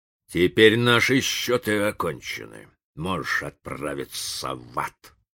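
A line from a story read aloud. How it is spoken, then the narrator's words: Grumbling. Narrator (Russian): проворчал индеец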